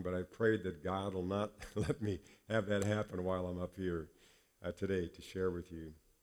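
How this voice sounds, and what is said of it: Congested voice from a cold. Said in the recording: “My voice sounds a little different than normal because I've been battling a cold for the last few days that settled in my sinuses and my chest”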